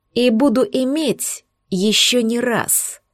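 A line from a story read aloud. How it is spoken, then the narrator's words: Venomous hiss. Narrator (Russian): прошипел ядовитой змеей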